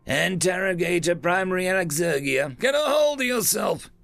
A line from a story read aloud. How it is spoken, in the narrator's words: the creature shouted at her